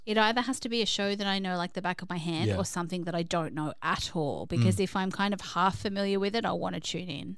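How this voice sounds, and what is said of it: Creaky vocal fry voice. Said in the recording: “I'm getting vocal fry now. Sorry, I've had bad allergies today.”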